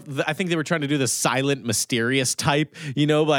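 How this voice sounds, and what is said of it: Usual voice. Nothing is said of it.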